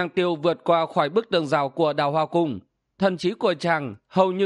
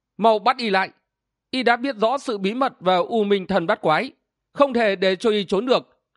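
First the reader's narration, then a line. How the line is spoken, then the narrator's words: Loud speaking. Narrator (Vietnamese): Vạn Độc Thần Cô lớn tiếng nói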